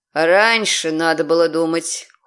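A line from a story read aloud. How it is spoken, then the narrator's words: Cold remark. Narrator (Russian): холодно заметил демон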